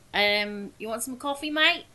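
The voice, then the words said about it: Put-on Australian accent, not great. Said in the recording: “I want you in Australian ... Now I have to get my accent. That's not really great.”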